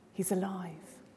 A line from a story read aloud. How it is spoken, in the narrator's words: excited, whispered conversations, proclaiming